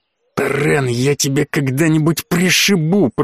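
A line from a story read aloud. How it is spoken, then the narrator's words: Hissed. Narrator (Russian): прошипел Ройс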